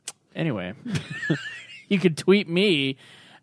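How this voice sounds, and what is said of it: Usual voice. Nothing is said of it.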